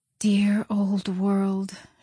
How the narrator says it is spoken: she murmured

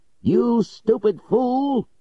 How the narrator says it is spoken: he shouted

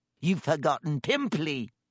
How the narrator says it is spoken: Peeves hissed in her ear

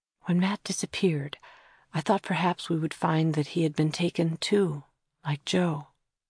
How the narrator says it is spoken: Kira whispered to Thomas

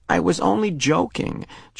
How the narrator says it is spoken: Jonas groaned

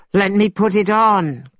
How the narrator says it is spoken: cried Monkey

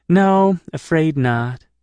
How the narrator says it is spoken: she answered wistfully

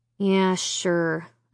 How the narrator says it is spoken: I muttered

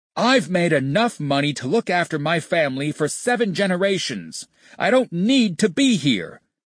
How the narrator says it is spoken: he screamed in Tony's face

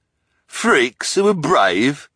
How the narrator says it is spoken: the hook-handed man sneered

